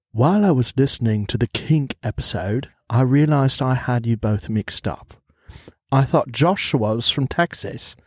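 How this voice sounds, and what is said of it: Put-on English accent, low voice. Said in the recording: “You're going to read it in the English accent. ... I'm really taking cues from Tom. ... Tom has a real nice low voice.”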